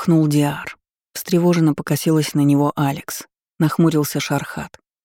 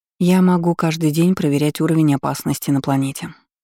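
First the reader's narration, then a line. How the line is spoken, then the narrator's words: Said calmly. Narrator (Russian): спокойно сказала Алекс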